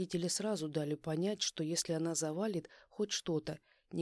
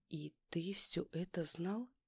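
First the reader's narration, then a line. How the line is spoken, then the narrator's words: Quiet sympathetic question. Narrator (Russian): тихо спросила Юля с сочувствием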